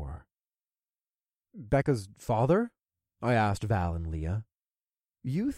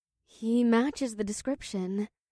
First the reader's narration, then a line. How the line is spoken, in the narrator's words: Valerie said as she twirled her short brown hair nervously